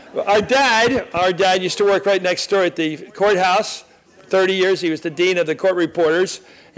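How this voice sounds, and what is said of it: Philadelphia accent. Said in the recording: “to place me here in Philly, besides my voice. There is a Philadelphia accent ... known for his Philadelphia accent.”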